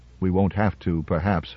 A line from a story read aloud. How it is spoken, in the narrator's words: replied Powell quietly